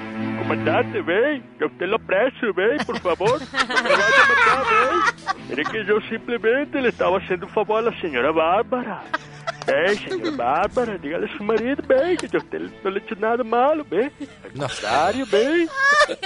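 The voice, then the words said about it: Put-on Guajiro regional accent. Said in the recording (Spanish): “Eso parecía una novela con acento guajiro y todo”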